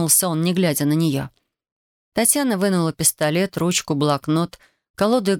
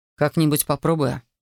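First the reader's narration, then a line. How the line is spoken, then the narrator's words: Grumbling. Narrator (Russian): проворчал он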